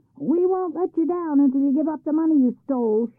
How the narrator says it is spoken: shouted the villagers

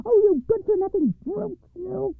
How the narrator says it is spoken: cried she

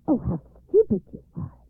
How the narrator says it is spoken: exclaimed Baba Yaga's daughter

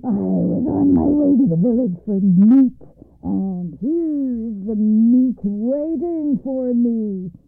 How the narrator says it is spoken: roared

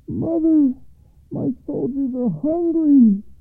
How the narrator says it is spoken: cried the oldest son over the east wall

